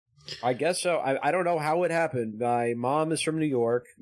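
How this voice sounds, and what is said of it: Mixed accent with Southern twang. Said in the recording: “speaking in a Southern twang ... my accent makes no sense because it's just like all the places I've lived melded into one, and it sounds like a speech impediment”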